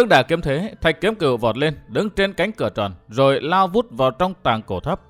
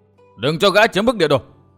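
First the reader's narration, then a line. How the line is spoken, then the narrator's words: Crowd shouting. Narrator (Vietnamese): Quần hùng hắc bạch vừa quát tháo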